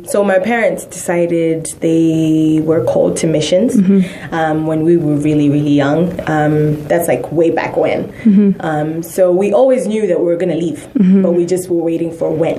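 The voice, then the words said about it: Indian-influenced English accent. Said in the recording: “She has that accent, guys. Can you tell? ... Say something in India”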